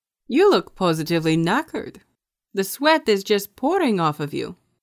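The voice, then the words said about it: Slightly louder, accented character voice. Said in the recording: “said a little louder, his accent clearing a little to make sure his words didn't mix”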